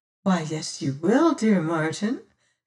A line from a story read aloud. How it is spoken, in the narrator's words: says she gently